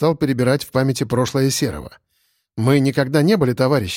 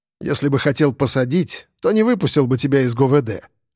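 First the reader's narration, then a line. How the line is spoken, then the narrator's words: Snort. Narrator (Russian): хмыкнул я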